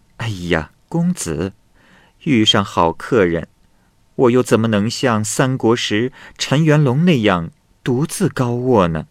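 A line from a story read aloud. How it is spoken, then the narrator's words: Laughing. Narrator (Chinese): 女郎笑着说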